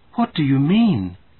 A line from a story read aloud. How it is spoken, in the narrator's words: cried Mother in alarm